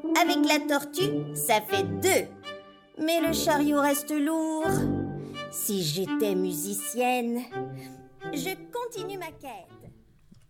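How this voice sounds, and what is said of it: Light Québécois French accent. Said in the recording (French): “Elle a un tout petit accent, mais qui est à croquer ... Un petit accent de l'autre côté de l'Atlantique ... Un petit accent au goût de sirop d'érable ... Québécois ... il est très léger son accent”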